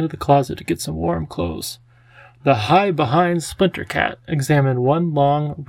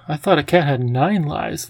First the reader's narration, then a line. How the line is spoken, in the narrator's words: Lindy giggled